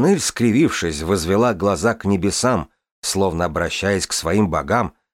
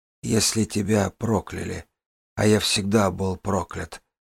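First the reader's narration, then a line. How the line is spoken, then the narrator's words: Breathy. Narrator (Russian): выдохнул Тамин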